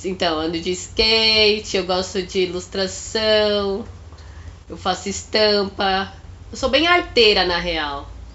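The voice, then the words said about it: Congested, stuffy-nosed voice. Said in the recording (Portuguese): “Nesse momento eu tô com o nariz estampado ... ranho, menina! Ranho! Então minha voz tá meio assim.”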